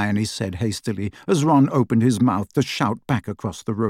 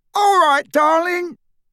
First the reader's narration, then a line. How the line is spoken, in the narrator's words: the drunkest of the men on the other pavement was yelling